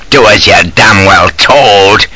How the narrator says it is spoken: he rasped

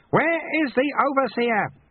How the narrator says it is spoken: He cupped his hands and shouted

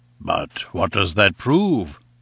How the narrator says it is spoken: he asked, in a gentle, persuasive voice

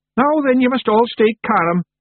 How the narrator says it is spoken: yelled Rob Anybody

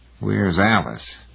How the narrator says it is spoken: Heinemann grumbled

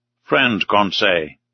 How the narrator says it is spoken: said Ned, gravely

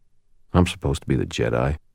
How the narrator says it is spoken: muttered out loud

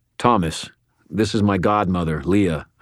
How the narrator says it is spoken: I said

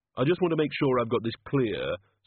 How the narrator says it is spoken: said the Ogod in a reasonable tone of voice

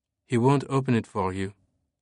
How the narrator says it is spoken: Sophie said coldly

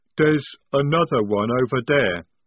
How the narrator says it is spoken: rumbled Jade

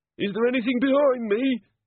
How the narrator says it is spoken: he quavered

